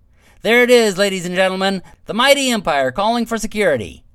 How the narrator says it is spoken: Huff shouted with a smile on his face

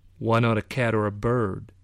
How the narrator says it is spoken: he asked

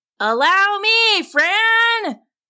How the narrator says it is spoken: Tim found himself booming down at the cook

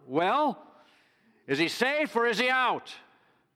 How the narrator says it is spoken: the catcher shouted out

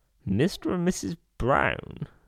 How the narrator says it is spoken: he repeated in a dazed voice

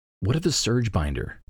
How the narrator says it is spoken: Navani whispers

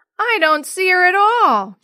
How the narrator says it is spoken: Jenny wailed

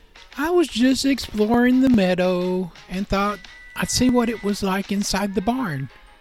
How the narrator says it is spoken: explained with his voice tinged with uncertainty

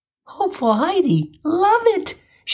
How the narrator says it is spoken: she exclaimed

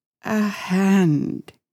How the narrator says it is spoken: said and he sobbed

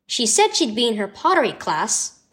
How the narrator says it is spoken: answered Mom

